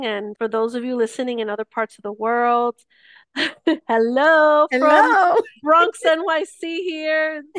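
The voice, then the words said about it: New York Bronx accent. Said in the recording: “they probably hear the accent”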